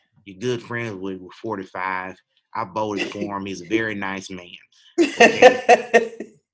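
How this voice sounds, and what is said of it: Comedic character voice. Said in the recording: “That's my impression. Cletus, one of my characters in my stand-up routine.”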